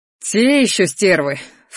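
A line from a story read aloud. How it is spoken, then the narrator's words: Snorting. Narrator (Russian): фыркнул Шейрон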